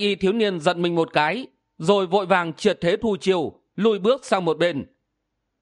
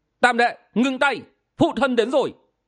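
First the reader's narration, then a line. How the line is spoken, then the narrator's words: Booming bell-like shout. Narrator (Vietnamese): tiếng quát như là chuông vang lên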